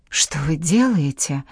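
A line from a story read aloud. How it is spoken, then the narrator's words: Astonished woman writer. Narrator (Russian): произнесла изумленным тоном великая писательница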